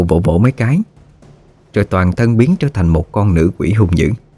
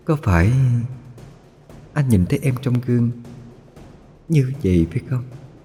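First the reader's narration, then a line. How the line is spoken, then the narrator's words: Soft whisper. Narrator (Vietnamese): Lụa khẽ thì thầm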